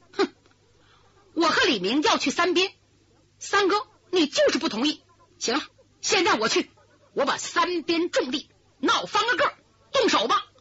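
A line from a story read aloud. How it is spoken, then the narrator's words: Hasty interruption. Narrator (Chinese): 我爷爷李文莲听这话，急忙插嘴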